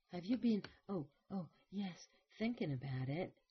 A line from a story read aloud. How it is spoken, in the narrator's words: Cadman panted, her head thrown forward against her arms